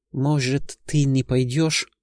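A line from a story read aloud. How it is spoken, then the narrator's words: Hopeful whisper. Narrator (Russian): с надеждой прошептала Герда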